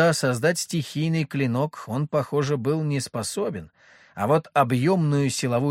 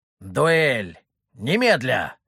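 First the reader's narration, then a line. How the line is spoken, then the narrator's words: Roaring. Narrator (Russian): взревел Дали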